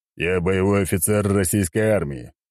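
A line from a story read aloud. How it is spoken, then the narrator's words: Deep bass male voice. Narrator (Russian): пробасил мужик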